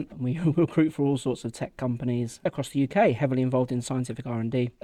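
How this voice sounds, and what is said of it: British accent. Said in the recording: “We're strangely popular in the States. I think it's maybe the accent.”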